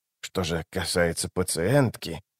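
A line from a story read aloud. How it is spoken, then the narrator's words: Mumbling. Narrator (Russian): забормотал он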